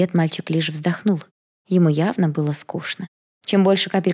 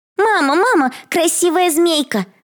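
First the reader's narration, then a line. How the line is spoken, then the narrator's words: Shouted out. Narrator (Russian): выкрикнула она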